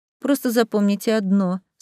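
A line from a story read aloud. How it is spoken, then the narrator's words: Bored tone. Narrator (Russian): скучающим тоном продолжил Самаэль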